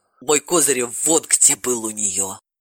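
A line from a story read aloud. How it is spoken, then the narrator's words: Sighing. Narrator (Russian): вздохнула Ирина Сергеевна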